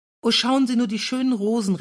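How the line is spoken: Called out. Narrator (German): rief Caroline trotzdem

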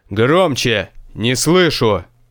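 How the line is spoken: Barked. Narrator (Russian): рявкнул хозяин замка

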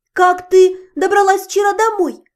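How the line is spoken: Embarrassed shout. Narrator (Russian): крикнула я, чувствуя некоторое смущение по поводу неприятного окончания званого ужина

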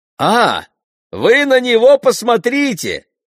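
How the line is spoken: Shouting. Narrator (Russian): закричал вице-президент

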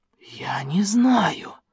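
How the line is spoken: Whispered cry. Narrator (Russian): шепотом вскрикнул Смешарин

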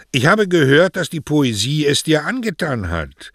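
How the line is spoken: Said loudly. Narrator (German): sagte er laut genug, dass alle es hören konnten

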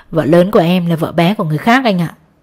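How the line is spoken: Sarcastic laugh. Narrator (Vietnamese): Tôi cười mỉa mai

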